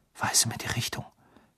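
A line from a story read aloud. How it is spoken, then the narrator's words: Whispered. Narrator (German): flüsterte er seinem Zauberstab zu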